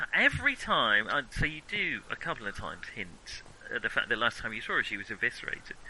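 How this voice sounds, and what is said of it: Usual voice. Nothing is said of it.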